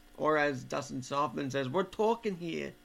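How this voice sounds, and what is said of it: Put-on New York accent. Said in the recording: “I usually don't have a New York accent, so that was rare.”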